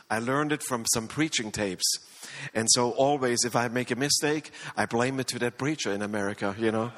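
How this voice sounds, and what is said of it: Strong non-native English accent. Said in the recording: “So that's why I have this bad accent.”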